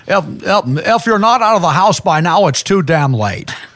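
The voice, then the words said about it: Imitates another person's voice. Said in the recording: “I do a Jimmy Stewart talking smoke detector”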